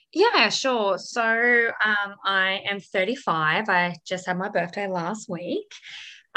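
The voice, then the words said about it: Slightly strained voice. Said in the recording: “have a little bit of a strained voice box from doing a lot of aerobics classes this week. So if I sound a little bit funny ... my voice is a little bit strained.”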